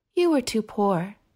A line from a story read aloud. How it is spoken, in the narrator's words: the child says soothingly